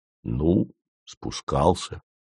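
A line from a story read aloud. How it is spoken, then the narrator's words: Gruff mutter. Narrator (Russian): буркнул Вий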